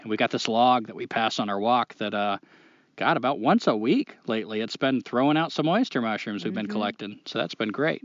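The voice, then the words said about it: Put-on Maine accent. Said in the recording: “I feel like I'm still talking in a Maine accent. I can't break out of it.”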